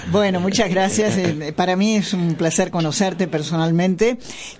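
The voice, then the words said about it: Polished announcer-like voice. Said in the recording (Spanish): “me encanta la voz. La voz de locutora.”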